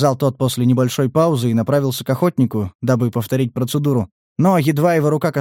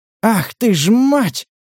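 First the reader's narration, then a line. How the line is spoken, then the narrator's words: Breathless exclamation. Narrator (Russian): выдохнул Стас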